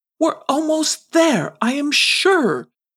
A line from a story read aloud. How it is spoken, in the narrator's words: pleaded Sir Ratsalot